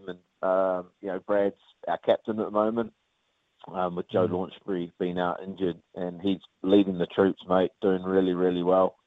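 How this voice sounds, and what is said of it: New Zealand (Kiwi) accent. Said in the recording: “we've got a few Kiwis over here, which keeps the accent staying hopefully strong enough with the Kiwi twang”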